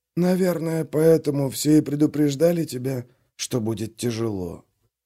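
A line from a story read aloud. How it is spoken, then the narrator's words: Whistling whisper. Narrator (Russian): заметил своим свистящим шепотом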